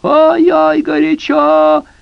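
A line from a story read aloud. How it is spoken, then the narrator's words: Witch's frantic scream. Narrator (Russian): сказала ведьма, истошно завопила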